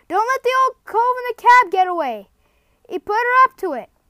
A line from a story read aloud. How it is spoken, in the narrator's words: someone else called out